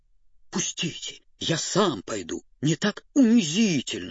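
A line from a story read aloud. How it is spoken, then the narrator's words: Groaning injured dog. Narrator (Russian): стонал забинтованный пудель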